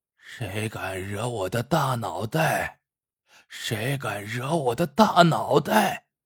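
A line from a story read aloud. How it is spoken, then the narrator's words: Hoarse male shout. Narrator (Chinese): 一个男人嘶哑着嗓子喊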